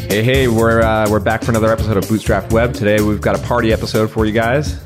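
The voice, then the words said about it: Slightly sick-sounding voice. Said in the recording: “Pardon my voice. I'm a little bit sick here today”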